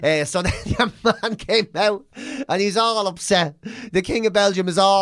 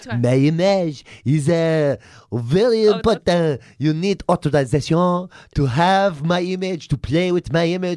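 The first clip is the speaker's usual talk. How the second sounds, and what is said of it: Attempted posh Belgian accent. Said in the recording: “I don't know how to do a posh Belgian accent”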